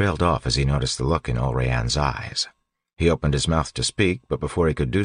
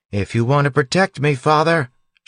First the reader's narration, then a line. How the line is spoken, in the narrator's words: yelled